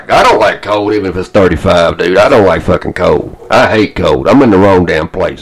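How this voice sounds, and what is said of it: Southern American accent. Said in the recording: “People at work will hear my accent ... where are you from, Atlanta?”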